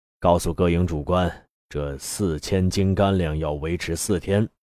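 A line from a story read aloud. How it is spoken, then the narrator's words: Cold. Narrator (Chinese): 方高杰冷冷说道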